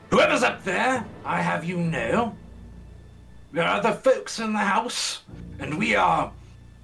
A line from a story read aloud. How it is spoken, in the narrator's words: shout up